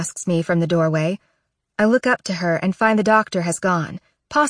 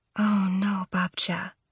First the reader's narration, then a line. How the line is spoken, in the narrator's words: I whisper